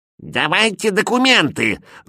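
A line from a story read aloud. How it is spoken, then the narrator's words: Nasty old woman's scream. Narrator (Russian): завопила старуха противным голосом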